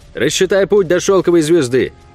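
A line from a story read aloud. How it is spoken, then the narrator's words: Shout. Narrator (Russian): крикнул я Огу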